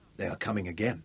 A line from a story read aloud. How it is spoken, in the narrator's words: Zuga said quietly, almost to himself